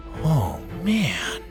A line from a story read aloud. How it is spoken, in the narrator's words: Bo mumbled